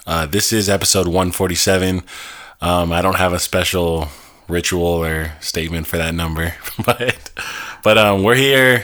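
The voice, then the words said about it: Slightly congested, unusual-sounding voice. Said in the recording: “I am coming off of a little bit of a cold, so my voice is not going to sound exactly like how it sounds every episode”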